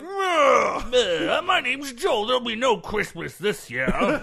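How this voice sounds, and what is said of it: Grumpy old curmudgeon voice. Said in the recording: “the old curmudgeon kicks in ... That's my Joel impression.”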